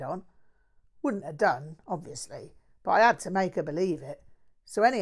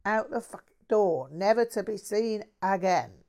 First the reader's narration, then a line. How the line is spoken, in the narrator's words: he chuckled gleefully